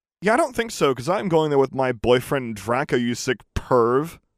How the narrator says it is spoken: I yelled angrily

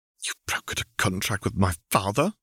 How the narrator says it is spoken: she hissed

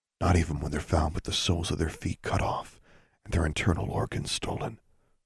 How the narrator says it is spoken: the second boy said gravely

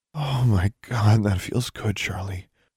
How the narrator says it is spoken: she groaned, stretching out in the warm water of the tub

